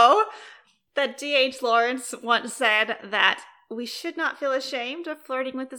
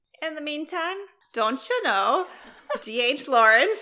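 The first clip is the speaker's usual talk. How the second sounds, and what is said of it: Put-on Minnesota accent. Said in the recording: “That's the only thing I can do in a Minnesota accent”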